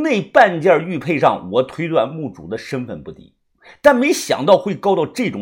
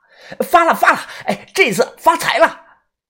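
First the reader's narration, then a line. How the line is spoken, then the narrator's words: Shouting repeatedly. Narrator (Chinese): 豆芽仔不停的喊呀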